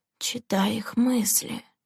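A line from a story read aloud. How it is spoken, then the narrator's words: Quiet answer. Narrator (Russian): негромко ответила Лэнди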